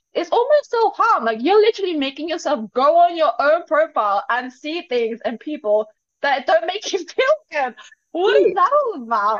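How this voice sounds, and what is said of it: Loud, screaming, passionate speech. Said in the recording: “I'm screaming right now ... passionate”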